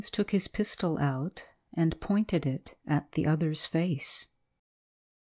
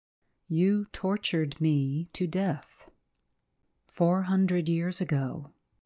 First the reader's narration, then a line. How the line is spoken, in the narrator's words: said in the same steady voice